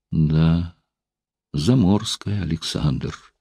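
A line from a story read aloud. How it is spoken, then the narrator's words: Sad sigh. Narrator (Russian): вздохнула она, и в ее голосе прозвучала печаль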